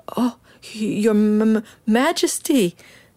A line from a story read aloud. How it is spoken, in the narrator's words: stammered Benjamin